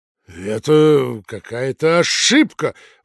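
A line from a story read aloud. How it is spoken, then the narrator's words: Exclaimed. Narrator (Russian): воскликнул Никифор Никифорович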